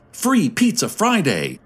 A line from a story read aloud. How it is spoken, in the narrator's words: a young voice shouted